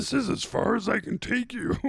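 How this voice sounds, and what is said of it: Yoda-style character voice. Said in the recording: “just do a Yoda impression, basically ... Yoda's great”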